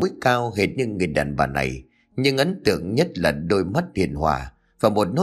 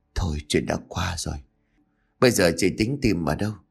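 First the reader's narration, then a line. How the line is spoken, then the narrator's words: Soft, encouraging. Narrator (Vietnamese): Khẽ chấp miệng nói vài câu động viên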